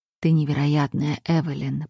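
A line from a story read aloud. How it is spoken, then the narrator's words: Whisper. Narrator (Russian): прошептал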